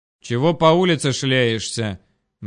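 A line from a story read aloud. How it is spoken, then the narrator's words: Menacing question. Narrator (Russian): грозно поинтересовался дружинник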